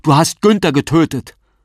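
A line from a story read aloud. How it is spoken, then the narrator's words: Man shouting. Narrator (German): Der Mann schreit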